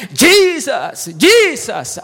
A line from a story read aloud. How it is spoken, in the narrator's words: he cried all the more